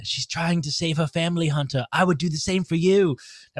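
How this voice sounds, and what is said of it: Poor impersonation of a character. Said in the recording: “my really poor impersonation of uh, ... really Omega”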